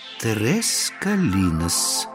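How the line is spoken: Slow repetition. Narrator (Russian): медленно повторила она

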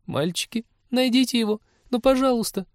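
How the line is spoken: Pleading. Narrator (Russian): взмолилась зоолог

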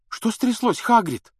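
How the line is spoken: Frightened question. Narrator (Russian): спросила испуганно Гермиона

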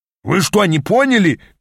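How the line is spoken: Shouting. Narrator (Russian): крикнул Аас

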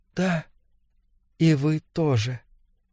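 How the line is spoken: Whisper. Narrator (Russian): Она прошептала

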